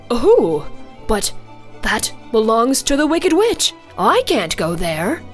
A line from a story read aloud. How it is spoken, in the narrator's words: he said